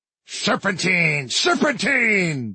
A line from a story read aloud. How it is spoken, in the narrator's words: bellowed Chaos